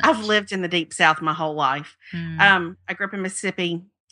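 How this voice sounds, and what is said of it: Southern American accent. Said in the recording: “I'm in Birmingham. I'm sure you can't tell by my accent”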